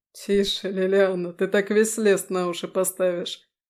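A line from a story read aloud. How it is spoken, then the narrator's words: Laughing, soothing. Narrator (Russian): Смеясь, успокоил он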